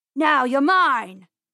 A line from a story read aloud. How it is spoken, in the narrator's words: yelled Mr